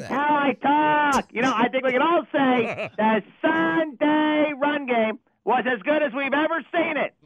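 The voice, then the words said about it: Chicago accent, drawn-out A's. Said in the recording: “drag out all your A's with your Chicago accent”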